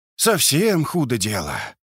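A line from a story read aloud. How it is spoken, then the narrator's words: Sad sigh. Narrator (Russian): огорченно вздохнул Лосенок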